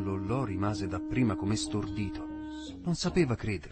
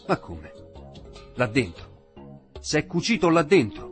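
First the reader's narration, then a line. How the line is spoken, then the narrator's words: Shouted. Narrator (Italian): gridò al vecchio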